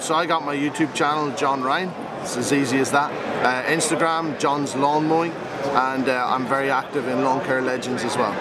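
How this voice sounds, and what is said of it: Irish accent. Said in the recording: “He's got the awesome Ireland accent.”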